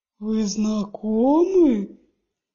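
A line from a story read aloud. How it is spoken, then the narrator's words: Booming drawl. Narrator (Russian): прогремел он, растягивая слова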